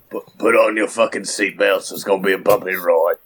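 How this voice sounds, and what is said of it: Failed Australian accent, sounds orc-like. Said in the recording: “I don't know what accent that is... that's not Australian... That's like 40K orc... it's not Australian.”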